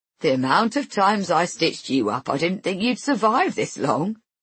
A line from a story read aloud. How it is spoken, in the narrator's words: he says, laughing